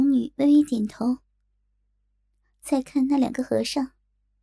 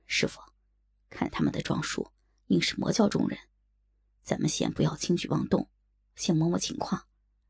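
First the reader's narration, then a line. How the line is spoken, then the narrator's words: Whispering. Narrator (Chinese): 左剑清 在小龙女耳边低声道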